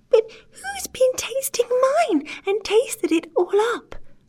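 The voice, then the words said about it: Tiny tearful little bear voice. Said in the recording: “cried the poor little teeny-tiny bear, in a teeny-tiny voice, with the tears running down his teeny-tiny face”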